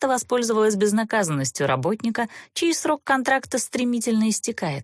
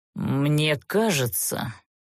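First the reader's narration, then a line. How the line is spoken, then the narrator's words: Quiet grumble to oneself. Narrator (Russian): словно для себя тихо проворчал Занбер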